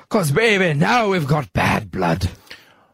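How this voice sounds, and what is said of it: Put-on pirate accent. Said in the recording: “I'll even do the pirate accent for you.”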